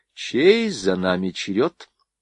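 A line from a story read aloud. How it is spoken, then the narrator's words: Plain. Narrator (Russian): спросила Рива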